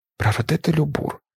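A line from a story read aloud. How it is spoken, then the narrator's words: Embarrassed mumble. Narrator (Ukrainian): пробурмотіла вона, червоніючи ще сильніше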